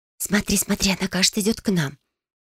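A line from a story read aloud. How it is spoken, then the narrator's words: Rapid whisper. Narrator (Russian): быстро зашептала Фелиция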